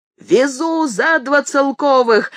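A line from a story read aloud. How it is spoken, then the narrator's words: Cabman shouting. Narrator (Russian): закричал извозчик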